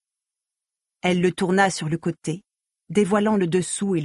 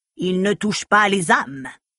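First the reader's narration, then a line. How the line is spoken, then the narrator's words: Stern retort. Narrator (French): répliqua Gautona d'une voix sévère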